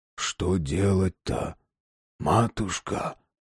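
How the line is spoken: Whispered question. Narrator (Russian): спросил шепотом Иван Демьянович

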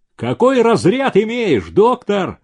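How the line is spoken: Shout. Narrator (Russian): Кто-то крикнул

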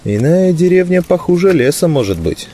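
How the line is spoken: Sighing. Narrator (Russian): вздохнул мой друг

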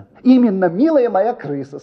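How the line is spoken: Said, then laughing. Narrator (Russian): сказал и засмеялся

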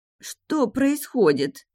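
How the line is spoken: Groaning, coming to. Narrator (Russian): простонала Минелли, приходя в себя

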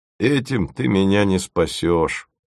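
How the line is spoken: Glum. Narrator (Russian): уныло сказал Фомин

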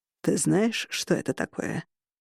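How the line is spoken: Deep, slightly hoarse voice. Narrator (Russian): Голос ему соответствовал, глубокий и слегка хриплый

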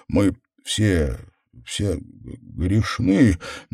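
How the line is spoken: Stammering. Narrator (Russian): Дэниел снова стал запинаться

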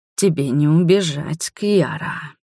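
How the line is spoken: Menacing whisper. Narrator (Russian): прошептал Конрад

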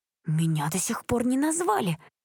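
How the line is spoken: Displeased hiss. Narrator (Russian): недовольно прошипела Джессика

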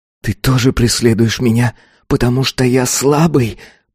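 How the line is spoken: Hiss. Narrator (Russian): прошипел он

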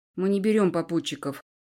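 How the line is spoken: Cold announcement. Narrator (Russian): Холодно оповестил мой маг

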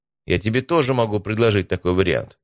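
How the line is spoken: Snapping. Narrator (Russian): огрызнулся Стас

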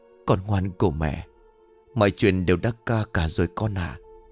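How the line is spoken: Tender motherly murmur. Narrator (Vietnamese): Bà chủ thủ thỉ nói

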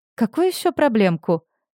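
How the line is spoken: Laughing. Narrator (Russian): смеялась

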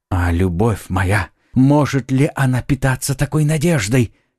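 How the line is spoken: Young man, ecstatic exclamation. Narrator (Russian): в порыве восторга воскликнул юноша

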